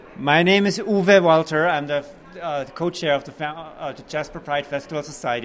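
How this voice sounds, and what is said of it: Noticeable foreign accent. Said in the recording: “If you notice the accent, right?”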